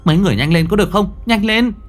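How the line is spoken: Shouting urgently. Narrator (Vietnamese): hét lên

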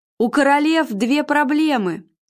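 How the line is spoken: Shouting after someone. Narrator (Russian): крикнул он ей вслед

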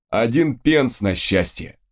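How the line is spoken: Short laughing chuckle. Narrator (Russian): хохотнул Фрэнсис

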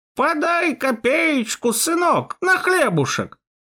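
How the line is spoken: Creaky old woman. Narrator (Russian): Старуха проскрипела

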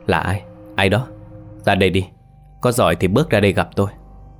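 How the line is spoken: Frightened muttered questions. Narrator (Vietnamese): miệng không ngừng lẩm bẩm hỏi

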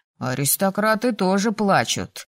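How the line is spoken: Muffled, hollow. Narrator (Russian): глухо добавил Риван

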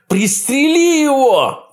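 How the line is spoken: Shouted. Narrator (Russian): выкрикнул он

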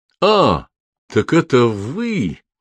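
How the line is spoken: Surprised drawl. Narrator (Russian): удивленно протянул Норман

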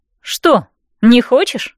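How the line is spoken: Snorting smirk. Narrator (Russian): хмыкнула я

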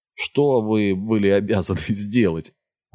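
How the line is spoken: Laughing. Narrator (Russian): Аарон засмеялся

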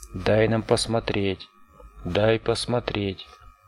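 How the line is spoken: Rising shrieks. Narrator (Russian): вопли треугольников усилились

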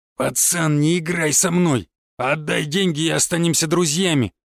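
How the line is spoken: Growled. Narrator (Russian): прорычал Саня Лесной

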